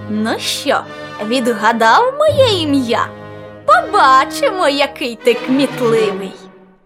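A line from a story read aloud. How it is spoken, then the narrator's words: Mocking laughing question. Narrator (Ukrainian): засміявся глузливо і питає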